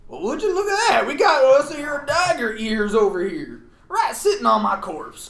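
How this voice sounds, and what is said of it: Put-on Southern US accent. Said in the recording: “I'm doing the wrong southern accent. I'm doing like Alabama. I gotta do Kentucky.”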